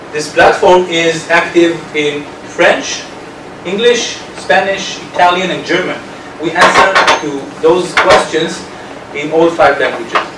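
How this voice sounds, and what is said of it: Speaks English with an accent. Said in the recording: “you're making fun of my accent.”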